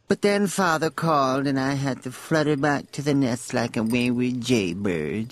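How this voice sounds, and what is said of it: Droopy, drawling character voice. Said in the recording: “the Truman Capote droopy dog-like”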